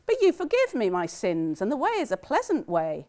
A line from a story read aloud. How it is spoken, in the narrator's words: laughed and said